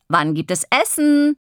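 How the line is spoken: Calling from inside. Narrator (German): ruft von drinnen

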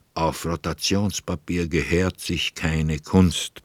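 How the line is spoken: Murmur through half-open lips. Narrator (German): zwischen halb geöffneten Lippen hervor zu säuseln

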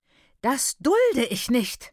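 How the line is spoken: Shrieking woman. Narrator (German): kreischte die läutende Hausmutter

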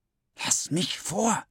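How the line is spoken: Hissing. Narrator (German): zischt die eine Stimme

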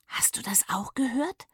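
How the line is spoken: Whispered. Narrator (German): flüsterte Papa

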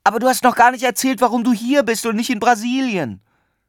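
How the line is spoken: Called after someone. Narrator (German): rief ihm Paula hinterher

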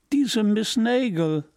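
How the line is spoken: Laughing voice. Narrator (German): jemanden sagen und lachen

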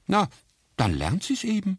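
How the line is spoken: Father calling out. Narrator (German): rief Florians Vater

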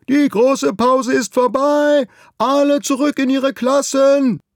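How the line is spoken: Bellowing across schoolyard. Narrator (German): Herr Mockenhaupt brüllt über den ganzen Schulhof

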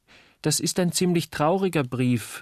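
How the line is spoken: Plain. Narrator (German): sagte Uli

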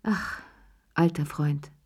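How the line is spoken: Grateful sigh. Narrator (German): seufzte Cherie dankbar

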